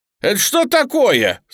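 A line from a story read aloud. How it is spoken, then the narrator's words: Indignant exclamation. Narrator (Russian): с возмущением воскликнул Коган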